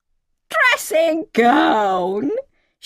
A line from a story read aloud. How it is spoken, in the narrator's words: she shrieked in a voice that told me she was the junior of the two